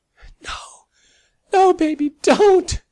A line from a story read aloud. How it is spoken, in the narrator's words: Sally cried hopelessly, hating her weak, ragged voice